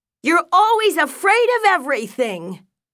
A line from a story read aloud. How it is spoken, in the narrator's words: shouted Millie